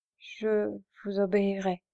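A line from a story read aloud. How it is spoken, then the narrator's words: She stammered. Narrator (French): balbutia-t-elle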